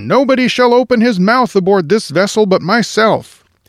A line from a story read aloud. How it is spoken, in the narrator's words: roared the captain